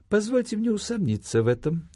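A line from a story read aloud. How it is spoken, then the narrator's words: Gentle objection. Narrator (Russian): мягко возразил ему чекист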